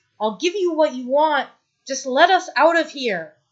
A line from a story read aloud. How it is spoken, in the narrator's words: shouts